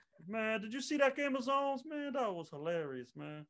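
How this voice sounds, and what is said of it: Imitates another person's voice. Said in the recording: “in my Charles Barkley voice”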